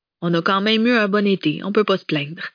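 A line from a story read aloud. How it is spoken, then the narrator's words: Almost cheerful voice. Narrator (French): précisa Freddy d'une voix presque guillerette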